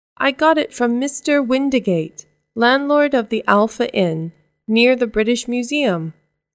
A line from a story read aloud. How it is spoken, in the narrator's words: replied Baker